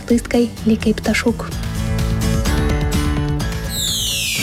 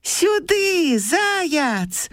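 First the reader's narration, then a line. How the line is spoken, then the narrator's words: Hedgehog's shout. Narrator (Belarusian): закрычаў вожык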